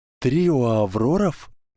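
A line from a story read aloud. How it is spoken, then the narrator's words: Strangely cheerful voice. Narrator (Russian): произнесла Гермиона странно радостным голосом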